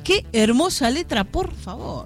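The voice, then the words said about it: Effusive reading with regional lilt. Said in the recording (Spanish): “así con tonada, con efusividad”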